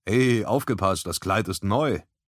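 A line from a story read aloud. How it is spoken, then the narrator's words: Smiling call. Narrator (German): rief Hadrian mit einem Lächeln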